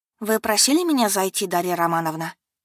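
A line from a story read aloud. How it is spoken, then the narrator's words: Calm. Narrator (Russian): проговорила спокойно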